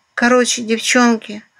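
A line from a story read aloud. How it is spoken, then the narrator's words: Hoarse squeak, rat. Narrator (Russian): хрипло пискнула крыса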